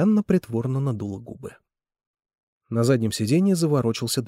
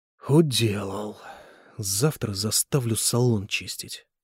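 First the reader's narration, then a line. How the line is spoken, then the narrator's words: Grumbling. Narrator (Russian): проворчал Николай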